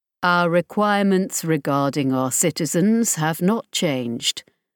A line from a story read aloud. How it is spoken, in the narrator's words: Borodin said flatly